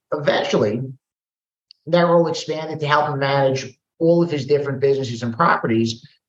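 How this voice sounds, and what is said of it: Brooklyn New York accent. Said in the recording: “New York City. Brooklyn, if the accent doesn't give it away ... I think I hear an accent”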